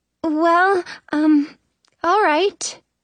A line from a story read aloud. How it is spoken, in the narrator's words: Snow says, her voice shaky